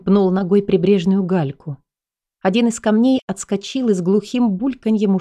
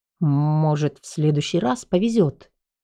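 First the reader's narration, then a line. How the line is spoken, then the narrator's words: Muttered by chubby man. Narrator (Russian): пробормотал толстячок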